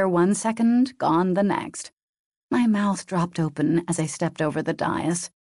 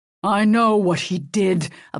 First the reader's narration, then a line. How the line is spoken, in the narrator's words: Apollo growled